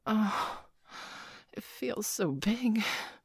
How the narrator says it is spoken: Peggy gasped

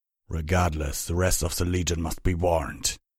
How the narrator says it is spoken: Vanguard growled

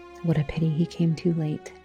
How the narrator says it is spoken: the relatives would mutter

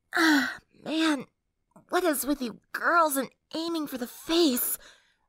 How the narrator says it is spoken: Lyra asked in a nasal voice

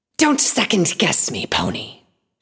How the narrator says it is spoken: she hissed

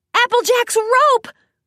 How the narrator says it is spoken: Rainbow yelled out, brightening

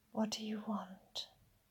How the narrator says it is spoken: I hear you whisper

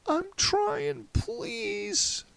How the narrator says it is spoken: the man pleaded again

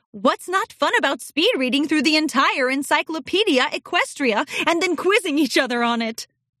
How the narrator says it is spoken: Celestia laughed

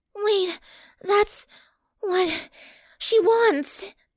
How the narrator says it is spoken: Twilight panted

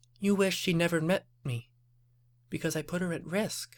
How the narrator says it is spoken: Applejack concluded quietly

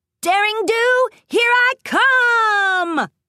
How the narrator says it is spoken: Rainbow Dash shouted

